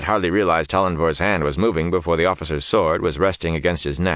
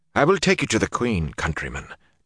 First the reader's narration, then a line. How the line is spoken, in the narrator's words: Tollenvor said softly